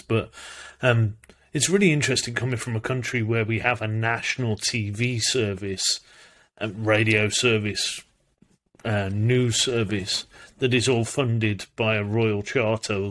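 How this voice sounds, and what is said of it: British (UK) accent. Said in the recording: “I obviously come from the UK. If you've not picked up where this accent's from, um, most people get it.”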